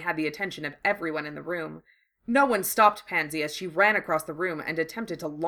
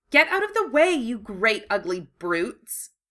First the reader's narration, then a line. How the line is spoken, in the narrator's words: she snapped angrily